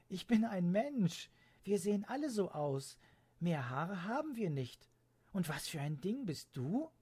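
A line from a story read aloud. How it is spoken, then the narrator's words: Blurted out laughing. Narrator (German): stieß Leonie lachend hervor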